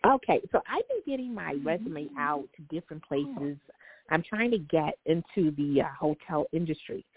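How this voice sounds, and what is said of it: East Coast American accent. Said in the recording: “I absolutely love your accent. ... whenever I talk to somebody from back east ... You have a great accent.”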